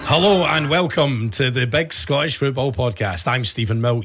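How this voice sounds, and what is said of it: Hoarse, worn-out voice. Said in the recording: “my voice is knackered ... your voice tells me that you've had a rough one ... I only ever hear you like that when you've been pissed”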